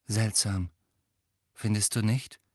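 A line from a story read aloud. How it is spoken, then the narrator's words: Quiet voice. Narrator (German): sagte Joe mit leiser Stimme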